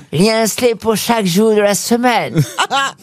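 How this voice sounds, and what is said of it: Put-on English accent in French. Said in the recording (French): “je vais faire l'accent anglais”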